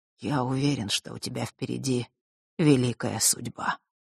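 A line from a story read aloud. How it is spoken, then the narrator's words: Muttered. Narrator (Russian): пробормотал Нортон-старший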